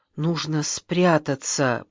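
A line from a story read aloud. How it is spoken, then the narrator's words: Whisper. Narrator (Russian): прошептала я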